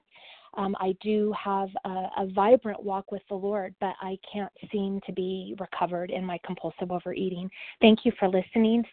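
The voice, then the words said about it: Quivery, teary voice. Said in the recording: “my voice is quivery. I'm a little teary.”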